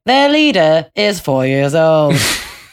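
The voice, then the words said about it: Sing-songy BBC broadcaster voice. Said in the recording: “Roman Mars's impersonation of the BBC ... That sing-songy ... Go high, go low, and you can be a BBC broadcaster ... That's Roman Mars imitating the BBC.”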